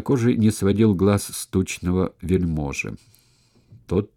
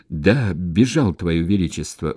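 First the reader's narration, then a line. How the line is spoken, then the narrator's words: Strained, timid messenger. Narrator (Russian): выдавил из себя посланец не без робости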